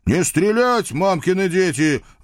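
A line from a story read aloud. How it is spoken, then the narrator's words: Chesty howl. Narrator (Russian): взвыл я грудью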